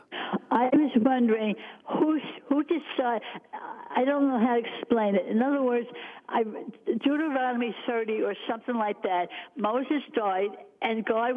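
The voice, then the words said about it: New York accent. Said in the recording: “I can hear it in your voice, too. You're from New York, right?”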